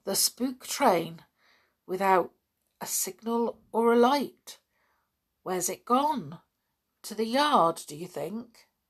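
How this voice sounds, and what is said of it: Trembly, shaken voice. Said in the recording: “said Julian in a rather trembly voice.”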